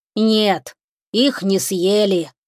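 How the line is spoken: Dull, muffled voice. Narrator (Russian): глухо сказал забор

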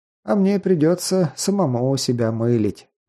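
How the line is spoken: Sighing. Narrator (Russian): вздохнул Прометей

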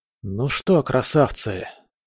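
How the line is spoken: Muttering. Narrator (Russian): пробормотал я

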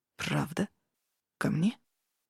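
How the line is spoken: Hoarse voice. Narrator (Russian): Хриплая

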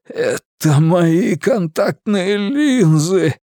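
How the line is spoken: Hoarse rasp. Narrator (Russian): прохрипел Ричи

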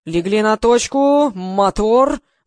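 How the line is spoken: Roaring shout. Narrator (Russian): взревел Гриша

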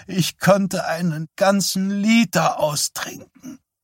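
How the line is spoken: Hoarse call. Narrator (German): rief seine Mutter heiser

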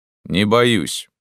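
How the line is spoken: Calm reply. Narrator (Russian): спокойно ответил я

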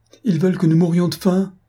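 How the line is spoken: Sobbing child exclaiming. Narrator (French): s'écria l'enfant avec un redoublement de sanglots

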